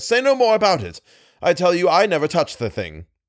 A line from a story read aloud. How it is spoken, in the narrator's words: he cried with a breaking voice